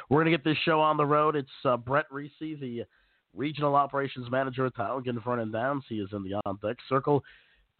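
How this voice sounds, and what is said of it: Hoarse, congested voice. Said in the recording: “Pardon my voice, by the way. I'm I'm a little bit under the weather ... a lingering sore throat and then the congestion and the overall fatigue”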